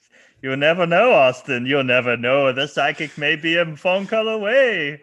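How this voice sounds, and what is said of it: Menacing put-on Caribbean-Slavic accent. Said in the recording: “I don't know what accent that was. This is like over the course of this recording, it has gone from marginally Caribbean to like Slavic. ... It's very menacing.”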